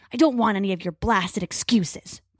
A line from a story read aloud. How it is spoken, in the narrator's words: Crow snarls